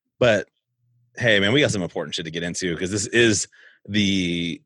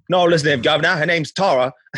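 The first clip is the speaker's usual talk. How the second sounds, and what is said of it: Poor put-on British accent. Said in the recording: “my British accent sucks”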